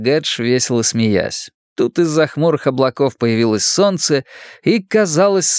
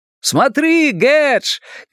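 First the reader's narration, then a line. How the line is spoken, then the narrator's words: Shouting. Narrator (Russian): кричал Луис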